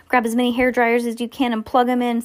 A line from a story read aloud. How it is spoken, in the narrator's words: Sam shouted